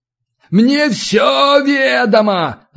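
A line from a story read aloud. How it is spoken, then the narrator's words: Yelled. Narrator (Russian): заорал Зиновий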